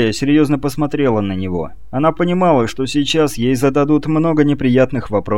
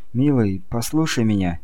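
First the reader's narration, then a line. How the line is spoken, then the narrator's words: Soft speech. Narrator (Russian): мягко проговорила она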